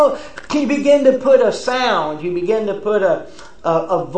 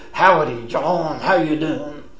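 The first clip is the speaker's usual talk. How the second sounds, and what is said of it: Rough cowboy foreman voice. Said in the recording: “the rough cowboy foreman”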